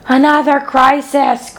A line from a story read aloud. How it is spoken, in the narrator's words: groaned Fern